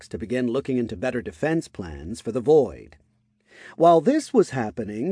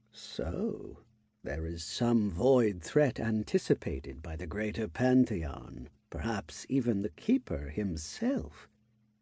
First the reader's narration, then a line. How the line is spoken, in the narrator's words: the elder muttered to himself